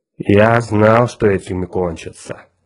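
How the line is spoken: Grumbling. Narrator (Russian): проворчал Мозг

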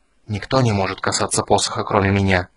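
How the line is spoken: Hissing. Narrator (Russian): прошипел Рейстлин

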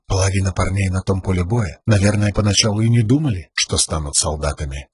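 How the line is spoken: Inner-voice whisper. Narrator (Russian): прошептал его внутренний голос

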